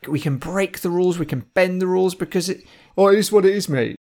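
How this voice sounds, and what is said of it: Plymouth English accent. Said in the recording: “that is a bona fide Plymouth accent”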